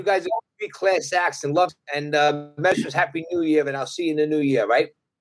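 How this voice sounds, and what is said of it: Brooklyn accent. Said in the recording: “your accent is music to my ears ... Brooklyn people”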